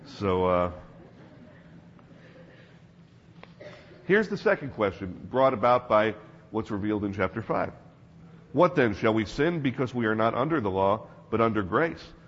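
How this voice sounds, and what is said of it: Voice worn from yelling. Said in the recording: “Pardon my voice this morning. I'm still recovering from yelling at teens for a week.”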